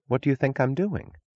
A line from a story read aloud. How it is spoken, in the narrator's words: asked Francisco